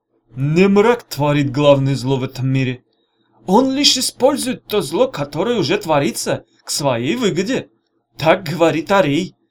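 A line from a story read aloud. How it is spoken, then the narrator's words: Through gritted teeth. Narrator (Russian): сквозь зубы ответил хан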